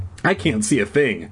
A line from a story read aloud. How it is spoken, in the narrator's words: Dad exclaimed